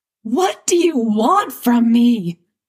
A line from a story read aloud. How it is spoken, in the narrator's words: Dustin screams, flailing his arms to fend off the goose as he runs